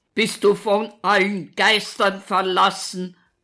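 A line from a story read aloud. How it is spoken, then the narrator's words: Continued bellowing. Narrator (German): brüllt Walter weiter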